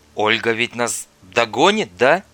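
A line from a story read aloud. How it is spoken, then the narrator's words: Uncertain question. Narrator (Russian): неуверенно спросила Татьяна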